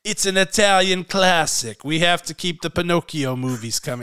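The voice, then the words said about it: Poorly done put-on Italian accent. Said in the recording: “That's a terrible accent.”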